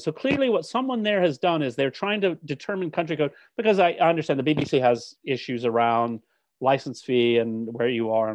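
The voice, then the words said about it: American accent. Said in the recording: “As a British citizen with an American accent”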